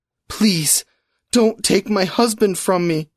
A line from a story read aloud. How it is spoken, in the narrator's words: Sarah sobbed